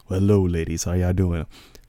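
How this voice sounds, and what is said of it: Put-on sexy radio voice. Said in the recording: “my very sexy internet radio voice”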